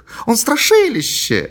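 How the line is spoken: Exclaiming. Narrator (Russian): воскликнула Мэри

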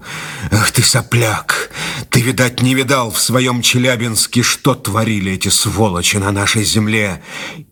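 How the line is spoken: Hateful exhale. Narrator (Russian): с ненавистью выдохнул

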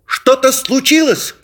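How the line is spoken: Shouting. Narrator (Russian): кричал Дэви

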